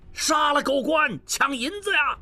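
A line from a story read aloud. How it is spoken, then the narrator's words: Crowd of prisoners shouting. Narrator (Chinese): 众犯人响应，大喊着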